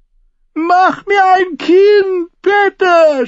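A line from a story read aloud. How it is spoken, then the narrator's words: Shouted. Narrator (German): schrie sie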